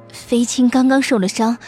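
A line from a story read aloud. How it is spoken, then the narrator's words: Gentle, slightly trembling. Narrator (Chinese): 孔乐儿温言说道，声音有些颤颤的，显然是在故作镇定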